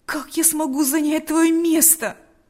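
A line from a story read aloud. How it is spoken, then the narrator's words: Exclamation. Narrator (Russian): воскликнул Павел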